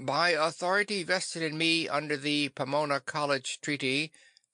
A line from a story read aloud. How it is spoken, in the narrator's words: the captain was saying very loudly